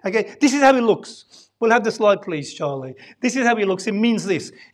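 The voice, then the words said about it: Brummie accent. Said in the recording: “in a Brummy accent, but proper English”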